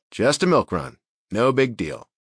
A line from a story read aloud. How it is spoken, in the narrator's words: I replied